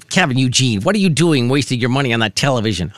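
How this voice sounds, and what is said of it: Nagging mom voice. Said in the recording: “mom voice”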